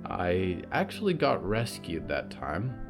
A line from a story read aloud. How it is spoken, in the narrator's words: Clara said quietly